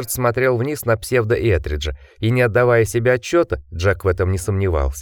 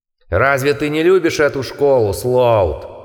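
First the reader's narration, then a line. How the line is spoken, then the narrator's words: Roaring. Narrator (Russian): взревел псевдоэтридж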